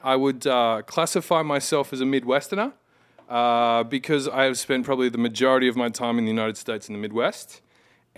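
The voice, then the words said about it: Australian accent. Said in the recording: “I was born in the great Southland of Australia ... I've still retained my accent”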